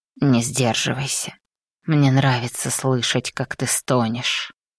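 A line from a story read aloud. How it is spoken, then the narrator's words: Hoarse command. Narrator (Russian): Его хриплый приказ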